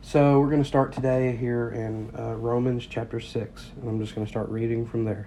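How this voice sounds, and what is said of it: Congested, sinus-affected voice. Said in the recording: “excuse my voice, I am dealing with tremendous sinus issues.”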